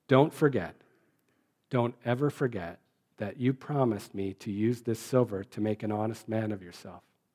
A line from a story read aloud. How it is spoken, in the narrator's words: the bishop said in a voice above a whisper